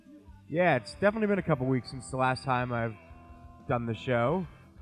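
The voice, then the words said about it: Slightly off, strained voice. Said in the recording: “my voice is a little weird now ... I've been having throat issues ... I had lost my voice”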